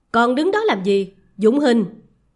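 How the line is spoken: Sharp shouted command. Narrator (Vietnamese): Hắn quát

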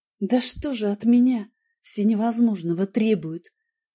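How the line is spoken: Whisper. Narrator (Russian): прошептала я

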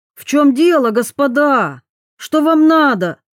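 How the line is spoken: Indignant shout. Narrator (Russian): возмущенно крикнул

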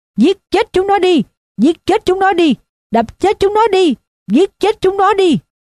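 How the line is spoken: Screaming. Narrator (Vietnamese): nó gào lên

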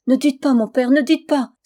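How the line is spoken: Exclaiming. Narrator (French): s'écria Mina

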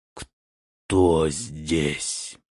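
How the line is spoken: Hoarse, angry close question. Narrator (Russian): хриплый голос незнакомца всего в паре шагов за спиной злобно спросил

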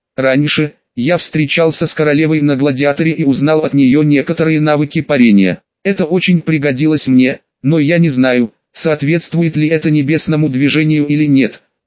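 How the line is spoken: Plain. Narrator (Russian): ответил Хан Сень

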